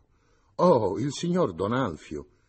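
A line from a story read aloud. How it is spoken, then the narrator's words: Woman exclaiming. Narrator (Italian): esclamò la donna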